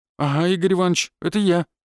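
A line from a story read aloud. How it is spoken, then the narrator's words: Frightened mumble. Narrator (Russian): испуганно промямлил воробей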